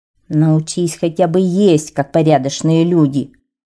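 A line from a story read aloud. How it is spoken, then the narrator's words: Small creature grumbling. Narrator (Russian): проворчала корабельная мышь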